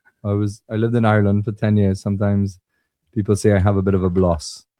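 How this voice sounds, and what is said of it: Trinidadian accent with slight Irish tinge. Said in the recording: “he's from Trinidad ... Do you have a blend of Irish and Trini accent ... a little both”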